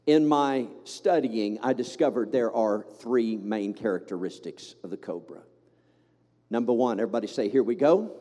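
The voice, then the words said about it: Southern American accent. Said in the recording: “I say that with a southern accent, don't I? ... speak southern”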